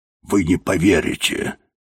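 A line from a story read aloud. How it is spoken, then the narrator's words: Quiet mumble. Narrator (Russian): тихо пробормотал Тибинг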